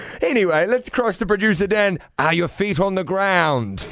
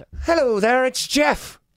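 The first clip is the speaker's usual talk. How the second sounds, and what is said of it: Unconvincing Irish accent with Kiwi twang. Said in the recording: “can you do an Irish accent? ... I won't be that convincing ... that Kiwi twang coming through”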